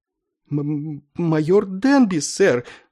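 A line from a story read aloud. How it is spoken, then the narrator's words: Strained, forced out. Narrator (Russian): с трудом выдавил из себя полковник Кошкарт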